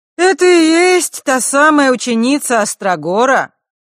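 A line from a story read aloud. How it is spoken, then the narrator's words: Loud, as if to herself. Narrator (Russian): громко спросила она, словно бы у самой себя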